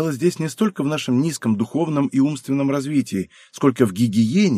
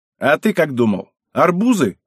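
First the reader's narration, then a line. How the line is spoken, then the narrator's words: Snapping. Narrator (Russian): огрызнулся лысый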